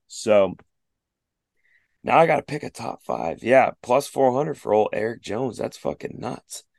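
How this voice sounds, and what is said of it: Strained, fading voice. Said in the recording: “I'm losing my voice midway through the show.”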